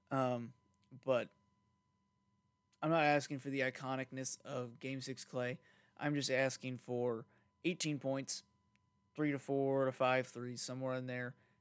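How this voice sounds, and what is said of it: Strained voice, losing voice. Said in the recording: “I think I'm losing my voice a little bit.”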